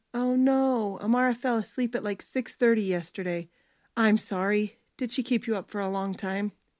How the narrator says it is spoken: He let out a stressed sigh

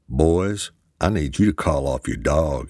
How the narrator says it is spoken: he said calmly

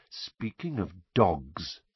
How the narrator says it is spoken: said Snape softly

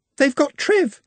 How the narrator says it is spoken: she sobbed

